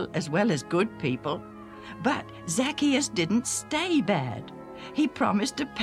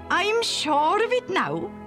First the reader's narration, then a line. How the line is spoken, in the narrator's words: Junius said excitedly